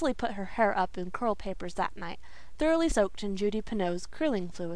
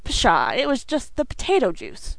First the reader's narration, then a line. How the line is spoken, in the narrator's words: scoffed Dan